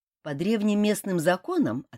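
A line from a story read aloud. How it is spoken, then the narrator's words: Plain. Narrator (Russian): ответил Ким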